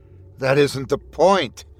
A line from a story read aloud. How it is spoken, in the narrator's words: Skinny snapped